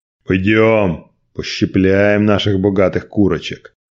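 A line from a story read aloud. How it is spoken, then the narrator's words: Barked. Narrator (Russian): рявкнул главарь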